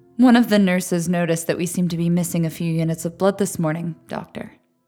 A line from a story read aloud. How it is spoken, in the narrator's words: said